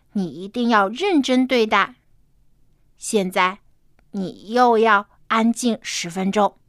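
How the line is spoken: Serious fatherly tone. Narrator (Chinese): 爸爸严肃的说

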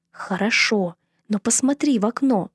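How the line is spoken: Loud whisper. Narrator (Russian): сказала я громким шепотом

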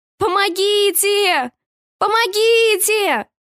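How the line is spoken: Desperate shouting into emptiness. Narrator (Russian): кричала я в пустоту

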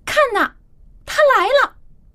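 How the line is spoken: Shout. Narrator (Chinese): 这个人的喊叫声

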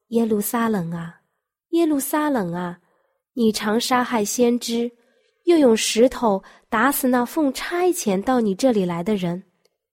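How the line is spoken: Mournful, compassionate lament. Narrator (Chinese): 耶稣的怜悯，他热切的爱情，发出了悲鸣的叹息，说

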